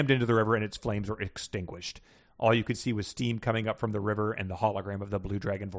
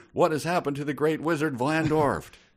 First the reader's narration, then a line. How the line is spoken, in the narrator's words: Princess Alexandra yelled